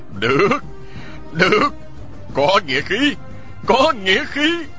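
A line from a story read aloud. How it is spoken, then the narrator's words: Loud laughing. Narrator (Vietnamese): Vị nghĩa huynh họ cười lớn nói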